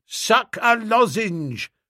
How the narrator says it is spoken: shouted someone

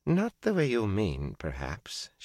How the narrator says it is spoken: she replied calmly

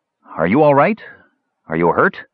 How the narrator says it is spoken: Brandella's voice floated shakily to him

